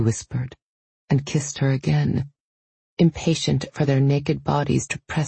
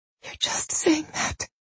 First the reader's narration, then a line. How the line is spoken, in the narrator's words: Solange whispered back